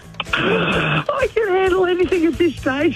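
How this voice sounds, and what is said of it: Voice goes high-pitched. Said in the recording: “my voice went a little bit high pitched then”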